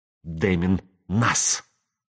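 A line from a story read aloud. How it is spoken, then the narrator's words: Hissing. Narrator (Russian): прошипела она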